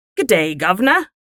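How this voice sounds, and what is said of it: Put-on British accent. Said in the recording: “I think it sounds crikey. British... sounds British... I did a good British”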